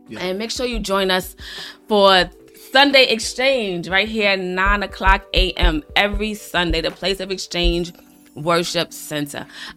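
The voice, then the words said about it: Hoarse, deep voice from a cold. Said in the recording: “I know I sound a little deep right now. My voice is hoarse, sound a little deep, but I'm just, you know, dealing with the cold”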